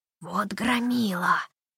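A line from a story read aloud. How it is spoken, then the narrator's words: Admiring whisper. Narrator (Russian): Восхищенным шепотом поделился с Тессой своими впечатлениями воришка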